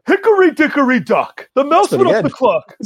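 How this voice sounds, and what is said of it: Imitated voice with cracking pitch. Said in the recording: “my Andrew Dice Clay impersonation ... just your Bernie again ... Bernie going through puberty ... just my voice cracking”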